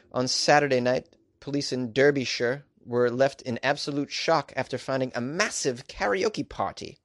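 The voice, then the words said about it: Poor put-on English accent. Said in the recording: “My English accent is just the pits.”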